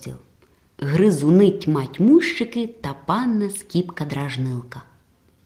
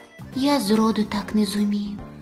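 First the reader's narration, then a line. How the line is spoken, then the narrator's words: Sighing. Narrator (Ukrainian): зітхнув Пеле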